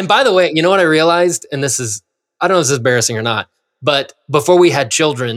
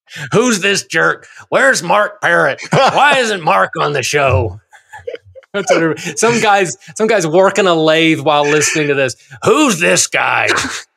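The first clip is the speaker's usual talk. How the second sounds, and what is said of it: Grouchy viewer character voice. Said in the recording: “that is your impression of David Letterman's impression of a grouchy viewer.”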